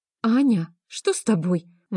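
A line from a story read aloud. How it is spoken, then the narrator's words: Exclaimed. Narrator (Russian): воскликнула Таня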